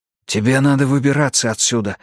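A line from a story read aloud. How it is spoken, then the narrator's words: Quick whisper. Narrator (Russian): быстро прошептал Эрик в ответ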